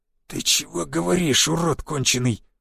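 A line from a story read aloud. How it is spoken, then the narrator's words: Old man's wheeze. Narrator (Russian): просипел седовласый старик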